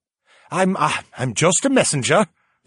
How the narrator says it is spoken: the young man stammered

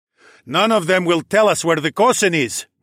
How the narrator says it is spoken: Nike called out

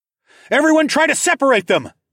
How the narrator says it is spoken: shouted

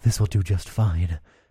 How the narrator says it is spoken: I whispered into her ear

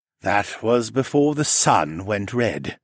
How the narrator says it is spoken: Siskern sighed

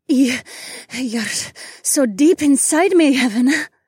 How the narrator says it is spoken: Remna sputtered

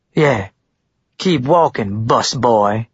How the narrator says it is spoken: Blaine said in an acidic tone

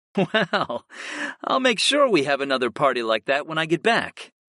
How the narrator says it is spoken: I chuckled

